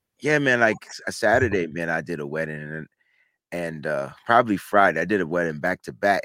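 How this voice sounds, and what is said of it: Raw, slightly hoarse voice. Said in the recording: “I hear your voice is a little today ... my voice started getting like raw”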